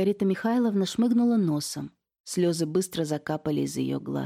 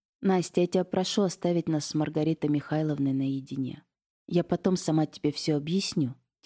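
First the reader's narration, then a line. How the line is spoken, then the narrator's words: Soft quiet request. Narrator (Russian): тихонько сказала я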